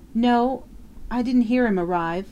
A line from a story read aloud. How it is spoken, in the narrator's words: Flora Miles faltered